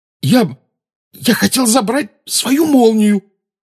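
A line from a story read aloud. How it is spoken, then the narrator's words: Hoarse wheeze. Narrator (Russian): прохрипел Гарри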